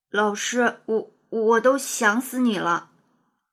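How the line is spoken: Stammering. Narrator (Chinese): 他结结巴巴地说

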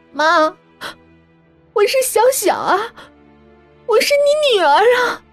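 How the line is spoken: Muffled, holding back tears. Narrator (Chinese): 崔小小捂住快要哭出声的嘴，缓了好一会儿才开口说

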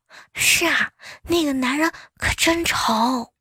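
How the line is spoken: Muttering. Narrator (Chinese): 后面两个人继续嘀咕

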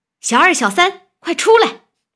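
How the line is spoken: Calling out. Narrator (Chinese): 便叫

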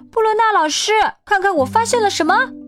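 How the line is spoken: Shouting. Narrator (Chinese): 汉克喊

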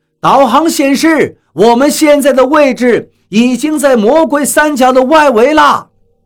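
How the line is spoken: Captain calling out. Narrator (Chinese): 船长叫道

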